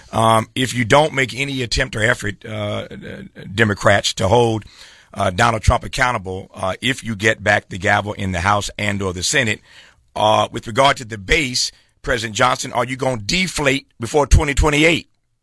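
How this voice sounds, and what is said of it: Imitates another person's voice. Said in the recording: “do my best Jesse Jackson impersonation”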